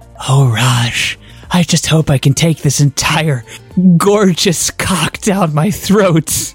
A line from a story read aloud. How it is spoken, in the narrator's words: She whispered